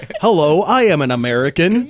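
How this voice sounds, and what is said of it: Put-on American accent. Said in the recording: “Benedict's American accent ... I thought I was watching an episode of House.”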